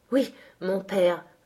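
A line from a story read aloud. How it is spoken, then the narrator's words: Panting. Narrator (French): haleta-t-il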